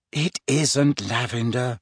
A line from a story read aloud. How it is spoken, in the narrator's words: said Hermione wearily